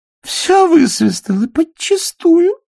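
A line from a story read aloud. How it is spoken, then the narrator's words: Moaning. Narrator (Russian): простонала Салли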